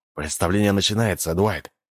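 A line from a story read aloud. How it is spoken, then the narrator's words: Muttering. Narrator (Russian): Анджело пробормотал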